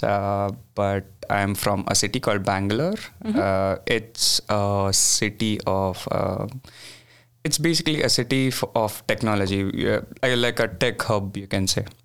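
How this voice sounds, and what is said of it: Indian English accent. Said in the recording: “I'm from India, as you can, I mean, as most people identify by their accent”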